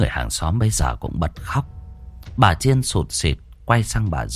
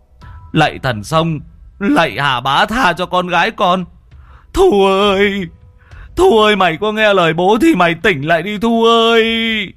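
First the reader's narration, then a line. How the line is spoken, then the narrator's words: Shouting through cupped hands. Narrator (Vietnamese): ông Tuấn chắp loa tay mà gào to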